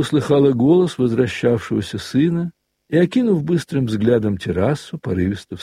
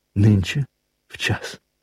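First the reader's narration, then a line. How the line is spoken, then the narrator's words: Whisper. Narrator (Russian): прошептала она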